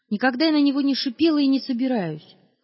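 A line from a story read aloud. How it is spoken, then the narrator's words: Shout. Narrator (Russian): крикнула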